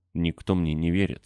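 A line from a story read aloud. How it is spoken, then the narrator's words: Plain. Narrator (Russian): сказал он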